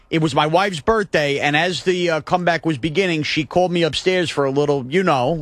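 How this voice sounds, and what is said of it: Imitated Staten Island caller's accent. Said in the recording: “I'm doing his accent... Joe in Staten Island”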